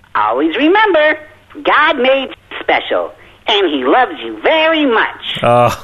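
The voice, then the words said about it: Cartoon character voice. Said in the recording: “Can you do that for me in the voice?”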